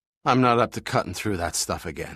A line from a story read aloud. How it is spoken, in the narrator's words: panted